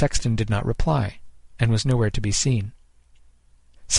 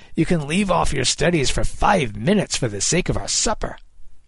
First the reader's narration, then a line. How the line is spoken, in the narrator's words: Kid snapped